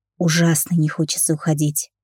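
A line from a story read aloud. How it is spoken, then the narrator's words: Quiet. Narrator (Russian): тихо сказал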